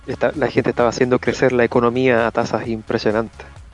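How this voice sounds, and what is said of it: Mock right-wing posh accent. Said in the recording (Spanish): “acento derechista”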